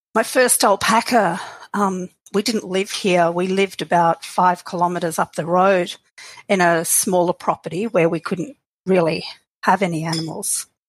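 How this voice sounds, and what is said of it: Australian accent. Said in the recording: “we've even got a few in Australia, I know. They'll recognize that familiar accent.”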